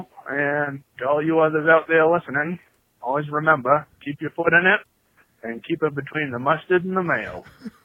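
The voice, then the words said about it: Exaggerated thick Maine New England accent. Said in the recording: “he really amps up the New England accent ... when he goes full Mainer ... Mainer just turned up to 11”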